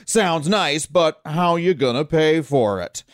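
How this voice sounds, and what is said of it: Mock stern dad voice. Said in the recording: “cheap dad voice”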